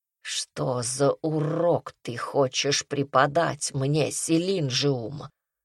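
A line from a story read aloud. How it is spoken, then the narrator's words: Vicious rasp. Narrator (Russian): Злобно захрипел Адзуна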